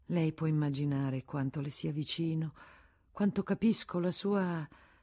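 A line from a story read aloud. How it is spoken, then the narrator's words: Soothing, caressing voice. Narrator (Italian): con voce carezzevole, come si fa con i malati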